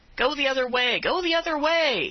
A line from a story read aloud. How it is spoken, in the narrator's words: he cried out